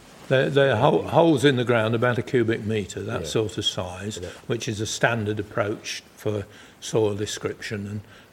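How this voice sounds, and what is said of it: Lincolnshire English accent. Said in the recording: “you can tell from my voice, you can tell from my voice, I'm not West Country. I'm what is usually called a yellow belly, which is Lincolnshire.”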